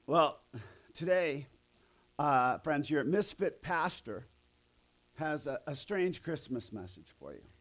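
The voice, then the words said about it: Hoarse, strained, fading voice. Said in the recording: “I'm losing my voice, so ... I won't have to push as much.”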